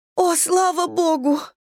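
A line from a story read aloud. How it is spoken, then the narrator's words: Sobbing. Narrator (Russian): Мэдисон разрыдалась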